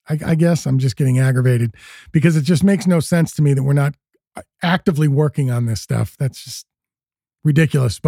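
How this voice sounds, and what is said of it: Wound-up, agitated, manic voice. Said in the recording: “I'm getting manic about this ... now I'm all friggin' wound up, as you can kind of hear in my voice.”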